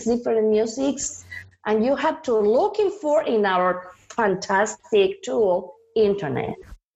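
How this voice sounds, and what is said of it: Mexican accent in English. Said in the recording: “because I'm Mexican, I have accent”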